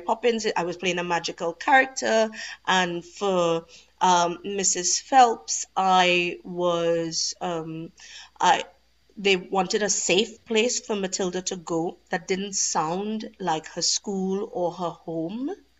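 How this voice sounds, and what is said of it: Warm Trinidadian accent. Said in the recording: “There is a warmth to my accent because it's from ... sunny, ... hot place. ... your own accent ... speaking of Trinidad, you know, obviously where you grew up”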